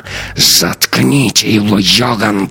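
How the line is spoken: Hissing. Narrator (Russian): прошипела она

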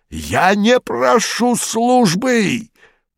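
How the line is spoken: Hoarse rasp. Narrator (Russian): прохрипел он

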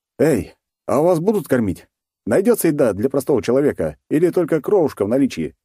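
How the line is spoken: Cheerful. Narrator (Russian): весело обратился

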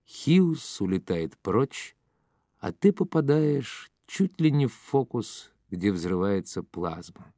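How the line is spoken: Plain. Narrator (Russian): сказал Долги

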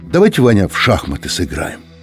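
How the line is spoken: Sigh. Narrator (Russian): Юра вздохнул и сказал

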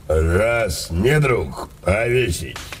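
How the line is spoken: Hoarse. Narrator (Russian): хрипло сказал отец Цупик

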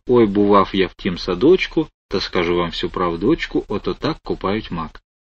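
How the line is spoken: Quiet hesitant singing. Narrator (Russian): тихонько неуверенно запел

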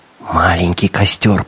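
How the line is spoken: Squirrel's whisper. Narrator (Russian): прошептала белка

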